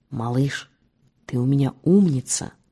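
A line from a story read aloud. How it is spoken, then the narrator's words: Whispered. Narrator (Russian): Малке шепнул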